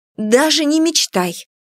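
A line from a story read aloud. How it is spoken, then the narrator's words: Exclaiming. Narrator (Russian): воскликнула я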